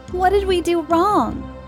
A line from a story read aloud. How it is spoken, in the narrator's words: Galaxy cried after losing the last of their friends